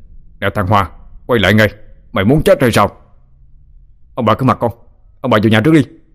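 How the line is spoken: Man loud shout. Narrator (Vietnamese): Ông hét lớn

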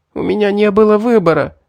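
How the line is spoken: Moaning. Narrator (Russian): простонала Селина

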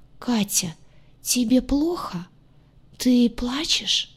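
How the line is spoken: Hoarse, genuinely alarmed voice. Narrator (Russian): Хриплый голос был полон неподдельной тревоги

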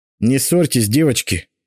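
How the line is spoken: Stern interruption. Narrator (Russian): строго прервал их я

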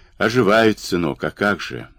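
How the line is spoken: Thoughtful confirmation. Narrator (Russian): задумчиво подтвердил Дмитро

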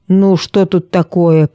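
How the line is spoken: Grumbling. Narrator (Russian): проворчал он

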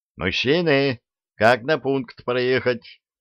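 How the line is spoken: Loud yell. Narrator (Russian): заорал

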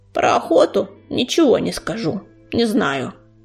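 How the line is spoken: Creaky voice. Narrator (Russian): проскрипел он

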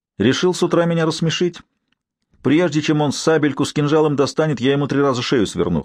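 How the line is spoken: Scoffing snort. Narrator (Russian): хмыкнул Норман

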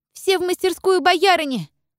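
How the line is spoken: Female shout. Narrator (Russian): закричала Дуня

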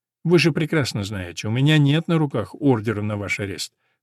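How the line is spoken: Calm, smiling. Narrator (Russian): с улыбкой произнес Грант, спокойно

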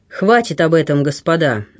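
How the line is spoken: Sharp interruption. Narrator (Russian): резко оборвал его Босуэлл

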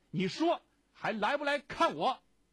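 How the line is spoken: Loud. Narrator (Chinese): 他对白姥姥大声地说

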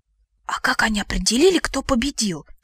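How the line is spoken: Whispered question. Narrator (Russian): шепотом спросила я у Лена

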